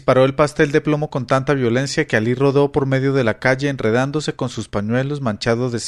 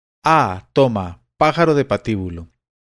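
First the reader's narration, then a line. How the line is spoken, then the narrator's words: Angry exclamation. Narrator (Spanish): exclamando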